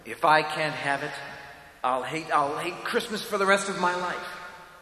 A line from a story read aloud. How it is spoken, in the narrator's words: said Hugh